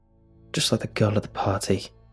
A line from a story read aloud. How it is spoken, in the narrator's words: he mumbled